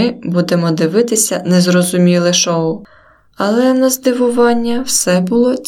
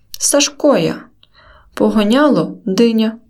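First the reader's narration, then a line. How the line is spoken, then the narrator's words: Quiet reply, ragged man. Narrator (Ukrainian): Тихо відповів обірванець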